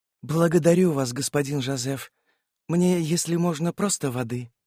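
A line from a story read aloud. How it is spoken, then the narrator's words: Soft. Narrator (Russian): мягко произнесла сестра Доминика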